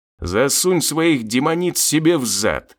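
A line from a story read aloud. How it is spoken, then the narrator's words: Growled in face. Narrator (Russian): прорычал ему в лицо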